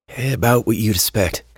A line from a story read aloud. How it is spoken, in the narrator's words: Henry said in a sigh